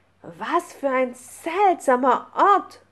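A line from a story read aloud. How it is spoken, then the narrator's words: Calling out. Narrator (German): rief Lucy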